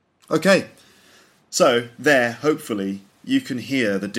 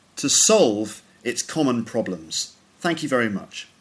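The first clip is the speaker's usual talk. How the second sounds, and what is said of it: Imperfect put-on American accent. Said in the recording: “my American accent was rubbish ... I don't pretend to have perfect American pronunciation. I think it's basically okay, but some of my vowel sounds are not quite right”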